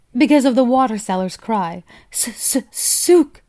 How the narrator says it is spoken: he imitated the call with such accuracy

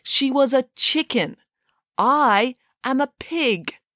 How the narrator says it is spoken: said Nanny Piggins, slowly because she was beginning to fear for the size of the children's brains

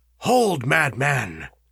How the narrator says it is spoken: cried he sternly

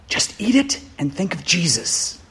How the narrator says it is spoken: whispered back

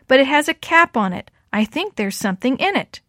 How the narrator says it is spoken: shouted back

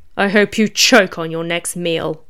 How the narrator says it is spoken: the rabbit demon snarled

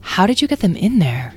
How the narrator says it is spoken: asked Beatrice

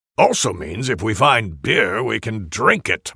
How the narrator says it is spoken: Mormek grumbles

